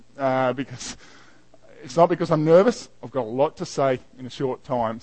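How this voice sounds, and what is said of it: Fast speech with an accent. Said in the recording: “I have a bad tendency to speak fast... my accent... I'm a bit of a quick speaker”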